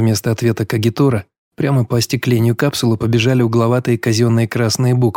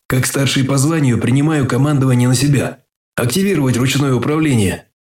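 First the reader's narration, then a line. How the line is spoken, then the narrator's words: Pathetic wheeze. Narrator (Russian): мой приказ обернулся жалким сипением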